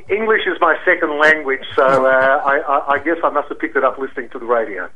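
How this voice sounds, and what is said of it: Very smooth radio voice. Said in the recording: “you've got a very smooth radio voice”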